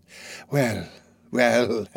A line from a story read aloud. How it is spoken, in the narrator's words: said Fagin with a sigh